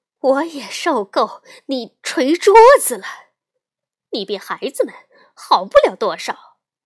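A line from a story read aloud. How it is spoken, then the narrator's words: Loud. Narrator (Chinese): 熊妈妈大声说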